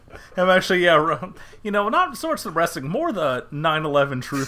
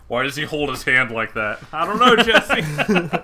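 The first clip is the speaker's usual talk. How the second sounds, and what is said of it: Imitates another person's voice. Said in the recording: “This is a surprisingly good Jesse Ventura impression.”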